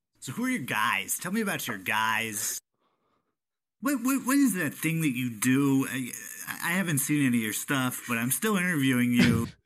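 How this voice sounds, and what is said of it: Imitates another person's voice. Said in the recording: “my Mark Maron impression”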